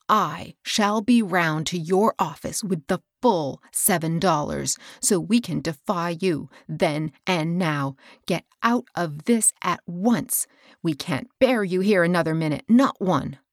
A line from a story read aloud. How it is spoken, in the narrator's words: she angrily rejoined